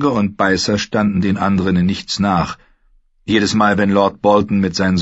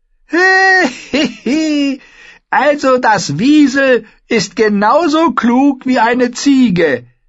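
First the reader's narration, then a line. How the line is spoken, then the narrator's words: Fool giggling. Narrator (German): kicherte der Narr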